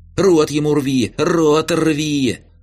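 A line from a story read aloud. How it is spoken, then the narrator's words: Yelling. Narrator (Russian): орал Ромка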